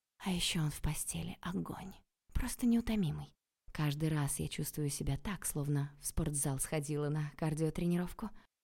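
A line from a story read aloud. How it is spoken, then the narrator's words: Whispered. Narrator (Russian): прошептала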